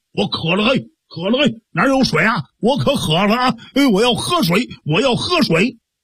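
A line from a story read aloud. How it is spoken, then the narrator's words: Shouting. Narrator (Chinese): 一边走啊还一边喊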